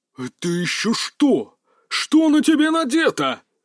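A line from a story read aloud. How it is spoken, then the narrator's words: Breathless furious roar. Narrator (Russian): Задыхаясь от ярости, чуть ли не проревел Кадзимура-сан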